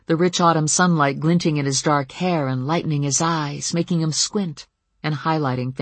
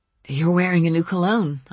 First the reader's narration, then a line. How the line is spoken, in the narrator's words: I told him, and my voice was husky